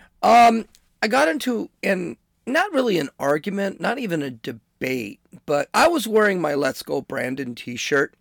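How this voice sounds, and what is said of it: Hoarse voice. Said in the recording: “you can still hear I'm kind of hoarse.”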